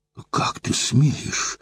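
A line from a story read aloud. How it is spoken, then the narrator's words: Forceful indignant exhale. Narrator (Russian): С силой выдохнула из себя Евдокия Савельевна от неслыханной наглости незнакомца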